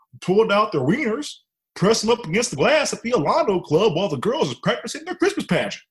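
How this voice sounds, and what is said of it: Put-on Texan accent. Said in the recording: “I'm gonna put on an accent here, so I apologize to everyone from Texas, but it doesn't sound right without it.”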